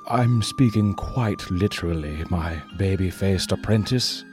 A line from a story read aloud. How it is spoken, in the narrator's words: Zephyr said grimly